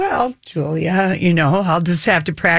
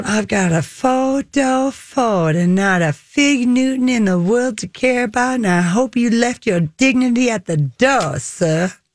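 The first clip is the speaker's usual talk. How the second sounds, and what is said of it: Put-on Southern US accent. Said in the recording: “practice getting on my Southern accent”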